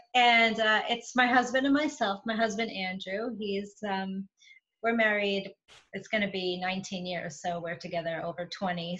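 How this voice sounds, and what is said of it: New York accent. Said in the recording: “I'm from New York. So you'll get the accent”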